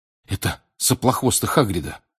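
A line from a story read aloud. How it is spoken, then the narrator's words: Whisper. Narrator (Russian): прошептал он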